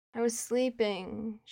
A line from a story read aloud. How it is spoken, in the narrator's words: she groans